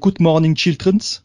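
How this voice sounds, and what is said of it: Alsatian-accented Oxford English imitation. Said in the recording (French): “un mélange improbable entre l'accent alsacien et l'anglais d'Oxford ... c'était immonde”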